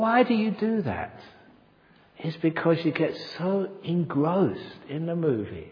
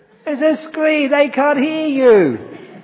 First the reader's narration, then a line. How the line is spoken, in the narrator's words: Some idiot shouting at the screen